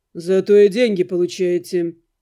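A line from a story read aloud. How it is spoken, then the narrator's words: Calm, almost cheerful. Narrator (Russian): Наниматель говорил спокойно, почти весело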